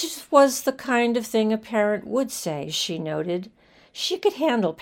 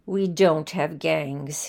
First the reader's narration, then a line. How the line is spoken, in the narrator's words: he said firmly